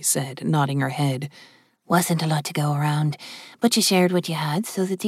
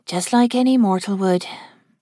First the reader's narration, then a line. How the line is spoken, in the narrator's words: Chloe said with a sigh